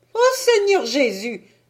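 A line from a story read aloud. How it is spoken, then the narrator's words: Exclaimed. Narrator (French): s'écria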